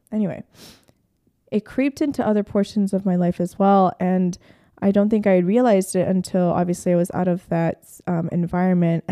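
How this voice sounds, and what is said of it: Rough, unwell-sounding voice. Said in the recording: “my God, my voice is nasty today”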